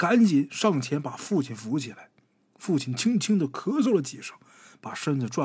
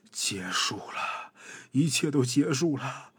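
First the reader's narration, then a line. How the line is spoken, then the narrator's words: Heavy sigh. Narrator (Chinese): 穆宗义重重的叹了一口气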